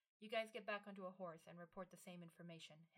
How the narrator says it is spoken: Himmel said

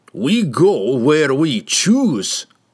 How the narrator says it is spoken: snarled Brunner

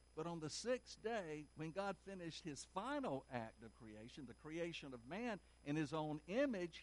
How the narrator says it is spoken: he exclaimed

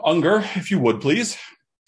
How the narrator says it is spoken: sighs and says

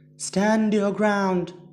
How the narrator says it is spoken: she screamed to no avail

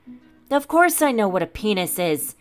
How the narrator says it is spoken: King Harvith bellowed

